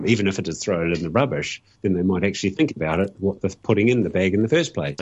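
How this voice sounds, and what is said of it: Strong New Zealand accent. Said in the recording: “You've gone all Kiwi ... you've got the accent back big time”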